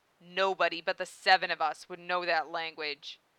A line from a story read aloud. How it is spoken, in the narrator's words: Jinpachi said, his voice low and dangerous